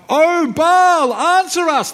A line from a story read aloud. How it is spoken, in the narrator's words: they shouted